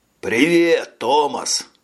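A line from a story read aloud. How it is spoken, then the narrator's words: Joyful greeting. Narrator (Russian): радостно поздоровался дежурный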